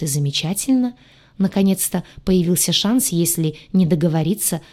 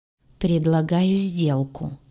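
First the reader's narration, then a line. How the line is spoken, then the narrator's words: Gloomy, sullen. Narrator (Russian): мрачно глядя из-под лобья, проговорила я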